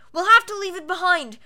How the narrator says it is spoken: yelled, pulling futilely

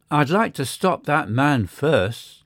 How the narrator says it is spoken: said he

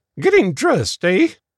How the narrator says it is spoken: snorted

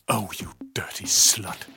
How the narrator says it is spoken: the tattoo artist hisses

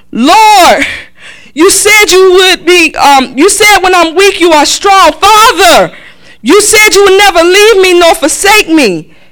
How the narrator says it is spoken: McCleaver cried out

